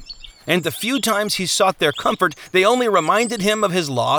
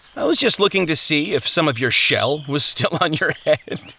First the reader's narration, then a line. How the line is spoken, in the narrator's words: he laughed